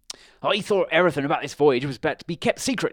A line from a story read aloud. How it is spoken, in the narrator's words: he said angrily